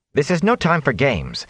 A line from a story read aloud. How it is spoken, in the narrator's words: Nynaeve began angrily